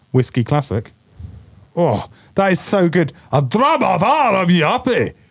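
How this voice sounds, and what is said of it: Put-on Scottish accent. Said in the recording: “That's a very good Scottish accent.”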